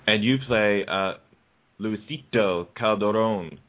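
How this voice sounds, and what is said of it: Fake Spanish accent on a name. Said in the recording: “like a fake Spanish accent.”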